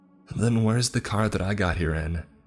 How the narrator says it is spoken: Ethan asked

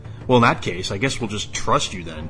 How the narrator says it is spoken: Max sneered

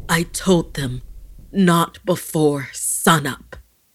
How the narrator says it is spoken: Gasping harshly, tears burning in his eyes, he whispered to himself

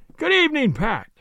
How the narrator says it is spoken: I cried

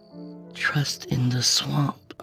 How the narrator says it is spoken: I whispered

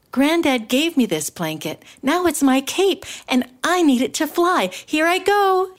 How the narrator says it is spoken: cried

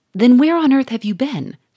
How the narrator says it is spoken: cried Monsieur Fourmeret

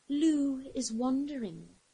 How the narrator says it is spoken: breathed in his ear

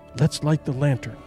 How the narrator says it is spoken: she whispered

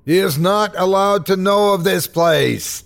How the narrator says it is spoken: he shrieked

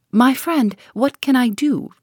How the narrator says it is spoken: cried the professor, piteously

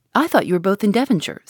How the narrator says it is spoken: said he

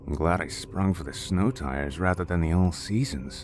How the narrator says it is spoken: James said under his breath

